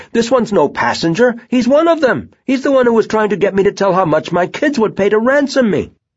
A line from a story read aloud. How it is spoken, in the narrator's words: the man was shouting